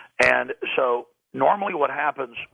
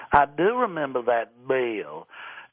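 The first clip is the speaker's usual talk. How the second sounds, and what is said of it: Put-on Southern US accent. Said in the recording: “He has a southern accent. ... that was pretty good, by the way.”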